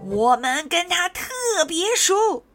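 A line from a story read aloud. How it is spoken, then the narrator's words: Loud shouting. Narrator (Chinese): 植物精灵也大声的叫着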